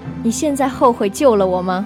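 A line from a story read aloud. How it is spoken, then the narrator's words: Smiling. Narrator (Chinese): 莫小贝笑着对我说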